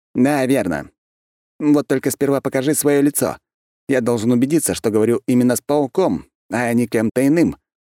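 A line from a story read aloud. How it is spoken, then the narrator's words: Commanding demand. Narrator (Russian): приказным тоном потребовал он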